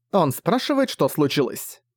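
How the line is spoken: Grumbled. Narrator (Russian): пробурчала

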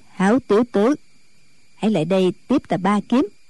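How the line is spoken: Cold. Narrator (Vietnamese): Diệt Tuyệt sư thái lạnh lùng nói

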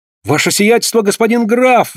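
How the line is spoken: Feigned surprised exclamation. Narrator (Russian): воскликнул он, делая вид, что страшно удивлен

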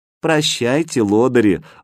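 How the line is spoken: Affectionate. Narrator (Russian): ласково сказала Катя

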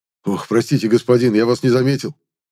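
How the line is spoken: Rapid flustered chatter. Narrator (Russian): затараторил Висант

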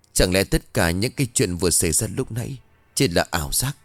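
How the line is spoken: Muttering. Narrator (Vietnamese): Thư lúc này lẩm bẩm

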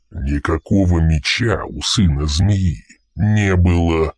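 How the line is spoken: Gruff growl. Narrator (Russian): прорычал командир патруля

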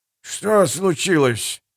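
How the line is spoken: Sleepy question. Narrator (Russian): сонным голосом спросил Эмос

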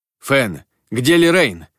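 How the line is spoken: Shout. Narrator (Russian): крикнул я

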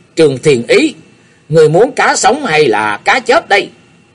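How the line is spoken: Loud shouting boy. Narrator (Vietnamese): thằng nhóc nọ cao giọng quát lên

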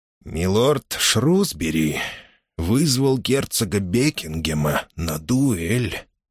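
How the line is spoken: Low voice. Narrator (Russian): говорил вполголоса

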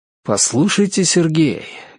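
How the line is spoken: Warm, heartfelt tone. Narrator (Russian): говорю я неожиданно задушевным тоном

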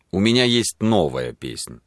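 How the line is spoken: Solemn declaration. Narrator (Russian): заявил он торжественно

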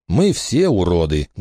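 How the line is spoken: Sad. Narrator (Russian): грустно сказал Джереми

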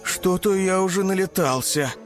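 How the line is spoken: Tired young tiger. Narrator (Russian): устало произнес тигренок

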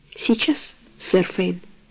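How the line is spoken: Old man's trembling voice. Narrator (Russian): ответил старый лакей дрожащим голосом

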